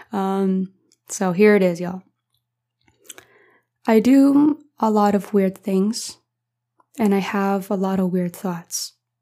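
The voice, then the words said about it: Tired, strained, fading voice. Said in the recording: “I'm tired and my voice is dying”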